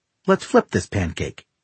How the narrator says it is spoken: she says cheerfully

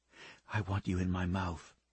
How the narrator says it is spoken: she said

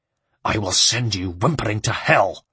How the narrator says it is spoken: snarled Maffei

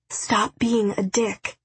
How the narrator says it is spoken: whispered

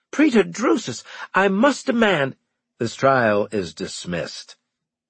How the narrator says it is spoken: he said firmly

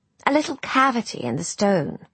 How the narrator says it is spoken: said Julia

